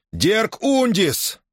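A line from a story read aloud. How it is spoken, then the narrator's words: Shouting. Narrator (Russian): закричал Гордон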